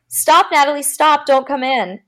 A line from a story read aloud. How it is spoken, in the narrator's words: yelled